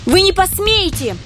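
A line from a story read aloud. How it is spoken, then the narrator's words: Unexpectedly thin shrill squeal. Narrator (Russian): неожиданно тонким голоском заверещала Лия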